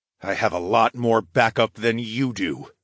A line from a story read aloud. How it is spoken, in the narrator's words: I growled